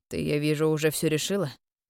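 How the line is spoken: Cold reply. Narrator (Russian): холодно отозвался Эвейн

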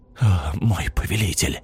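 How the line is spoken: Smiling whisper, head bowed. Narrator (Russian): Арт, не поднимая опущенную на грудь голову, расплылся в широкой улыбке, прошептал

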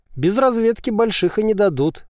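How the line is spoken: Skeptical snort. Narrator (Russian): хмыкнул Назар

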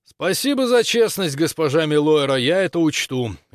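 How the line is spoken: Loud. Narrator (Russian): громко сказал

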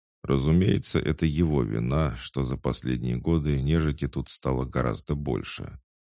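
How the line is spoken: Calm confirmation. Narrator (Russian): также спокойно подтвердил, словно не заметив насмешки

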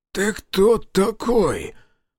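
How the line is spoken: Hoarse-voiced question. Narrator (Russian): осипшим голосом спросил Жигалов

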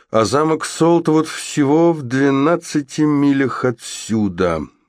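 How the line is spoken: Dull, muffled remark. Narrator (Russian): глухо проронил он

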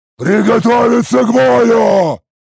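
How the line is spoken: Roared. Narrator (Russian): Проревел

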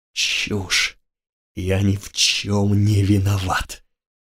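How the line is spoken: Hissing. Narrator (Russian): Грик прошипел

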